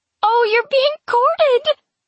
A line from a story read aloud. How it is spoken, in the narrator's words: Rosebeth cries with delight